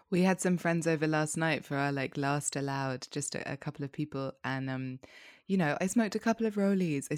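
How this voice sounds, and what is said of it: Rough, tired morning-after voice. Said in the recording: “you can probably hear it in my voice this morning. I sound like I've been out all night.”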